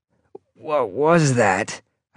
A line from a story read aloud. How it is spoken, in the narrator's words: I croaked